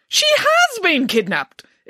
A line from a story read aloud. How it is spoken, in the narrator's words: exclaimed Nanny Piggins